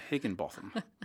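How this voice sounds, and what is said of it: Put-on British accent. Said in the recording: “I can't say that without a British accent.”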